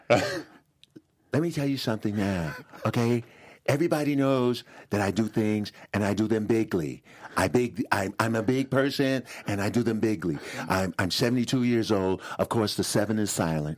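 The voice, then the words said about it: Imitates another person's voice. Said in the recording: “do a wonderful Trump impression ... That was good. I like that.”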